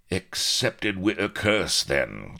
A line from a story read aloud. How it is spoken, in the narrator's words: growled Rackham